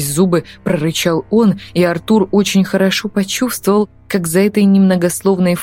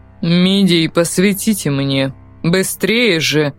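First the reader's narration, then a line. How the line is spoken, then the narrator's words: Calmer voice. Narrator (Russian): Более спокойным голосом проговорил профессор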